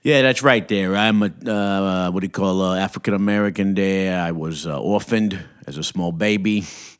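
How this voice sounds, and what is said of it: New York Italian accent. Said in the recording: “I hear your kind of New York Italian accent”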